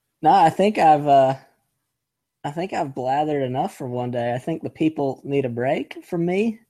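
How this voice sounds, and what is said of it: North Carolina twang. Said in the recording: “my twang will be back on the internet airwaves ... The twang was excellent ... a great twang fest ... Carolinian? ... A North Carolinian”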